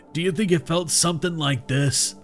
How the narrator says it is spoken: He asked, the laughter ending abruptly

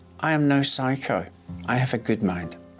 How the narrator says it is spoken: Unruh calmly said

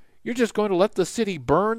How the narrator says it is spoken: the man exclaimed

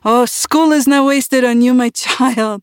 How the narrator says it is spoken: Uncle roared

